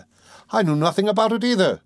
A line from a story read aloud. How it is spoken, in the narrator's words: cried Razumihin